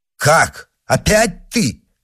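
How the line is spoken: Duke exclaiming. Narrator (Russian): воскликнул герцог

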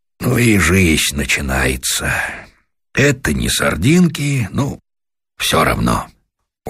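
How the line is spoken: Sighing. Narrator (Russian): Становой, вздохнув, сказал

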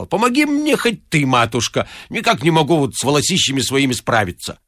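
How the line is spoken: Irritated. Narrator (Russian): раздраженно сказал

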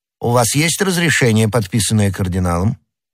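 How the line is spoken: Plain. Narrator (Russian): спросил начальник

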